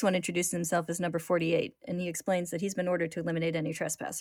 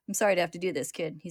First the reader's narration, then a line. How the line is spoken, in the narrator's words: says